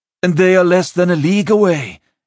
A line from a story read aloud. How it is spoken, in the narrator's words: Isorn finished breathlessly